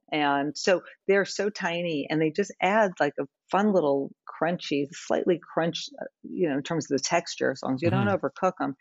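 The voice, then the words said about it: New York accent. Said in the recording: “my New York accent, since I grew up there”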